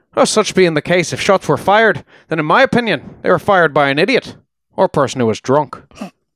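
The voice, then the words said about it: Badly done put-on Irish brogue. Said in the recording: “I'm sure that's a slaughtered accent. ... It's a slaughtered brogue.”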